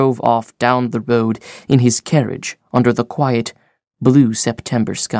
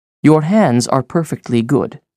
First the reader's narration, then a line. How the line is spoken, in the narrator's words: said Mother